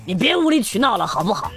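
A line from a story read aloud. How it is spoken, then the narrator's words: Angry. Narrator (Chinese): 我老公就发怒了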